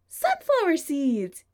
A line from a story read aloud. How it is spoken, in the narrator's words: he cries